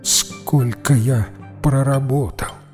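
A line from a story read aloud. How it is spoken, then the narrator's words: Barely audible question. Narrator (Russian): чуть слышно спросил он у монаха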